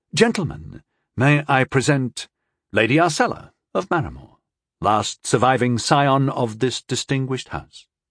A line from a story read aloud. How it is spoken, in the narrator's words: Rondol said smoothly